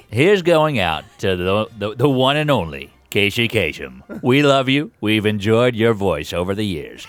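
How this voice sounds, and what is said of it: Imitates a radio host's voice. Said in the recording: “Now it's also Casey Kasem's birthday... Would you like to send out a birthday greeting to yourself, Casey?”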